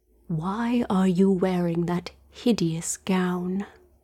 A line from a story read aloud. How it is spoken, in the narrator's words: he whispered